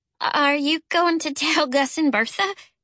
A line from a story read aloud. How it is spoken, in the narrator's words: Charlie asked in a pitiful voice